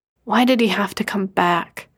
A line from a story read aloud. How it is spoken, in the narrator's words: Emil whispered, soft enough not to be heard